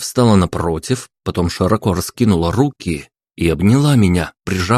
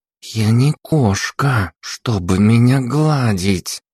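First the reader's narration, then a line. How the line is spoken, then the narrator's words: Through gritted teeth. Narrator (Russian): процедила она сквозь зубы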